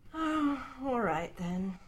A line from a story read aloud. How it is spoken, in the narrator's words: Arthur said with a sigh